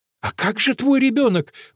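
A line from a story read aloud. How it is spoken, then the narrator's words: Exclaiming. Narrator (Russian): воскликнула Гвенда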